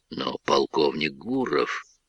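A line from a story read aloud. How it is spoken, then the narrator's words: Mumbling officer. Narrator (Russian): забормотал майор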